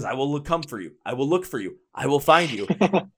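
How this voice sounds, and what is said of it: Imitates another person's voice. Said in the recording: “my best Liam Neeson impersonation”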